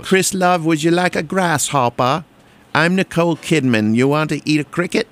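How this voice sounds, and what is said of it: Poor imitation Australian accent. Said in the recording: “that was wasn't even a good Australian accent”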